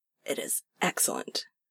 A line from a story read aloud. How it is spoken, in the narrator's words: he manages hoarsely